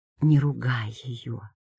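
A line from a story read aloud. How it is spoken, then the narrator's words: Quiet request. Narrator (Russian): попросила я тихо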